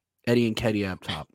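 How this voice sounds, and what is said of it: Lowered, quieter voice. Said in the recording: “Why did you lower your voice?”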